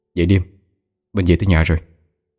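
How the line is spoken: Softly called. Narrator (Vietnamese): Bảo Long khẽ gọi

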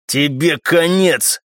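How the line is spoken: Muffled growl. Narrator (Russian): глухо прорычал он

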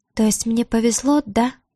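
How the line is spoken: Unexpectedly quiet question. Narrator (Russian): Хотела спросить Диара со звонким вызовом, а получилось неожиданно тихо

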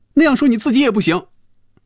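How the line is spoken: Loud. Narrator (Chinese): 菲比大声说

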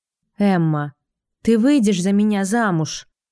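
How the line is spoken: Asked after a deep sigh. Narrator (Russian): спрашивает шериф, глубоко вздохнув

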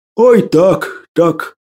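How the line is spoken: Tearful moan. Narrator (Russian): простонал Василий, и в глазах его сверкнула слеза

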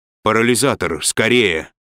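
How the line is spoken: Exclamation. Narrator (Russian): воскликнул Фаркосиган

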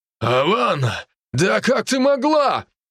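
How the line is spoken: Shouting. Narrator (Russian): прокричал он

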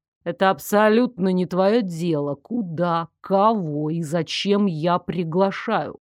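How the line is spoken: Cold, clipped. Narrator (Russian): Холодно отчеканил Дарек

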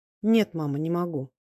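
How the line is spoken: Trembling voice. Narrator (Russian): сказал он дрогнувшим голосом

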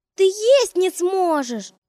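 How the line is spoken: Shouted. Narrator (Russian): закричал Антон

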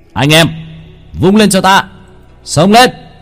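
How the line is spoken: Shout. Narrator (Vietnamese): Hắn hét lên một tiếng

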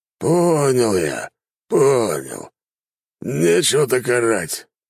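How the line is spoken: Hoarse bored drunk. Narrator (Russian): прохрипел скучающий пьяница

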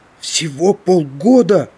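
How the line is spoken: Exclaiming. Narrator (Russian): воскликнул Гааль

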